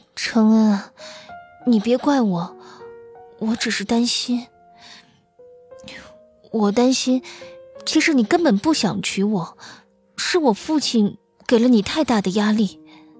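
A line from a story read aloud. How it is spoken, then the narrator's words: Soft, sighing. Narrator (Chinese): 轻轻叹息一声，孔乐儿的口气软了许多，说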